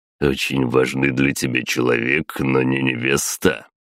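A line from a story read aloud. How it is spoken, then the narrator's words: Snorting. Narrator (Russian): хмыкнул он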